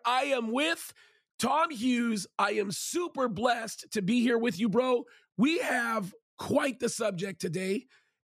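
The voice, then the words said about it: Hoarse, nearly lost voice. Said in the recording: “You might notice that my voice is almost gone”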